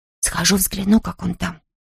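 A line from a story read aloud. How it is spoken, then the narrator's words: Whispered. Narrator (Russian): прошептала Марни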